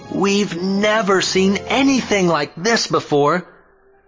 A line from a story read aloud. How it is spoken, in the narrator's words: They were all amazed and praised God, exclaiming